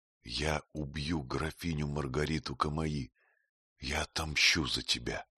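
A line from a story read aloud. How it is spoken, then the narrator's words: Very soft whisper in ear. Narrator (Russian): он приник к ее уху и тихо-тихо прошептал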